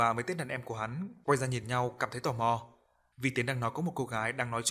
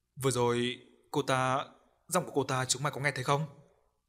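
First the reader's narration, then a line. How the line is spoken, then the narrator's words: Trembling voice. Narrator (Vietnamese): nói bằng giọng run run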